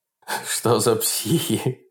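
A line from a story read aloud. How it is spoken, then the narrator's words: Mocking laughter. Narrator (Russian): смеялся над ними Берс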